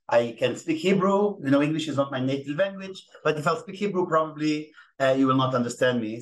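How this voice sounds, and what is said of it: Israeli-accented English. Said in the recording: “I apologize in advance for my Israeli accent.”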